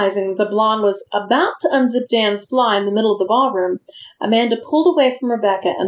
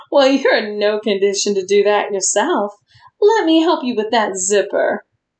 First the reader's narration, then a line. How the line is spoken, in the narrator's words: the blonde closest to her laugh and comment